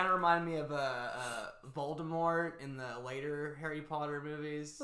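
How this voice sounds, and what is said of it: Usual voice. Nothing is said of it.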